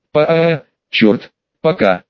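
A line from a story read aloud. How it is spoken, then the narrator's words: Barely forced out. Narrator (Russian): еле смог выдавить я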